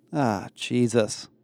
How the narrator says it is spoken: groaned

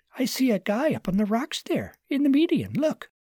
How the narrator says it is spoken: called out

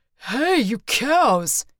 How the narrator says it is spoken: He growled

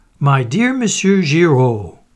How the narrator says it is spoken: cried the commissary

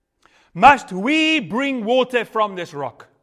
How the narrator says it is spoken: shouted

